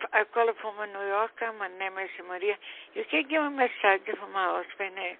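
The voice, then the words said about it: Heavy foreign accent, hard to understand. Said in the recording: “I'm trying to understand you. I'm so sorry if your accent.”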